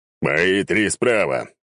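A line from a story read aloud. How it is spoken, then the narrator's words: Excited bark. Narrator (Russian): возбужденный схваткой рявкнул Сигизмунд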